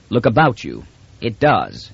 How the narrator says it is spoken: said Rios grimly

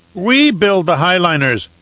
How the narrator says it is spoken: he said, and his voice grew louder

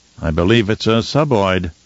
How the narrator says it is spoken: Fenring said dryly

